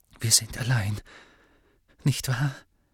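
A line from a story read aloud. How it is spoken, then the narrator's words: Quiet question. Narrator (German): fragte Narzissa leise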